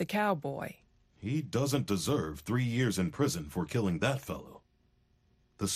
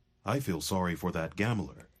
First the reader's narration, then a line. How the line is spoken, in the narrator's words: said the Easterner